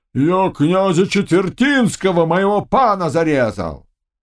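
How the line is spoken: Shouting ataman. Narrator (Russian): Атаман Волк, бывший мельник в Нестерваре, кричал

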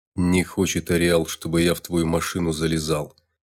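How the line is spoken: Angry big man. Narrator (Russian): зло скривился здоровяк

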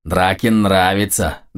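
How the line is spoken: Pleased booming. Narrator (Russian): довольно прогудела левая голова

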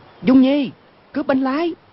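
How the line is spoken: Loud shout. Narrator (Vietnamese): cao giọng quát lên

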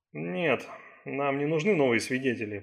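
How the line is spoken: Mumbling. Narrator (Russian): пробормотал Райм

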